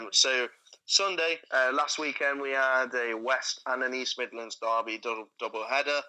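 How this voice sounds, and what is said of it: Usual voice. Nothing is said of it.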